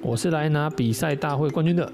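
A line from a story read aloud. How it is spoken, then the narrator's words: Shouting guard. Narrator (Chinese): 一名守卫 叫道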